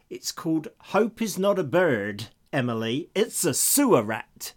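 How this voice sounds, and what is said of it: Vague put-on American accent. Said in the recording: “I don't know what sort of accent that was. ... you could have been anywhere in the States with that one”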